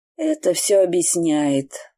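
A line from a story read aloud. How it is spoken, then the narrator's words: Sighing. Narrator (Russian): вздохнула тетя Мадалин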